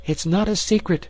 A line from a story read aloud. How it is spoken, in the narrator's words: she cried